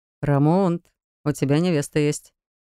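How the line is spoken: Chuckling young man. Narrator (Russian): хохотнул один из парней

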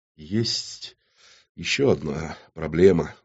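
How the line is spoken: Fearful trembling voice. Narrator (Russian): дрожащим голосом продолжил портной, боязливо

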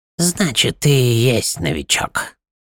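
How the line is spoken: Mocking creaky voice. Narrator (Russian): насмешливо проскрипел Мингул

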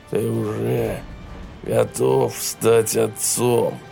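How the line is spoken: Growling. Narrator (Russian): прорычал Даррелл

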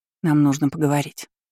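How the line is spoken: Plain. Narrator (Russian): сказала она

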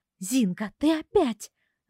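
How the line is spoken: Growl in chorus. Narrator (Russian): рыкнула вместе с мужчинами

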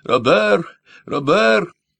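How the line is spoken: Shout. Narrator (Russian): крикнула

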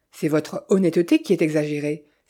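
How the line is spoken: Exclaimed. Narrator (French): s'écria Dolce Piano

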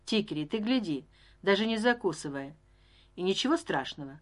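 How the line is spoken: Plain. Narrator (Russian): сказала Рози

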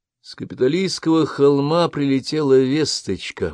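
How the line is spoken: Gloomy. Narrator (Russian): мрачно проговорил Хьюстон

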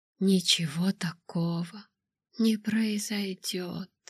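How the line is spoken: Whispered. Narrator (Russian): прошептал он

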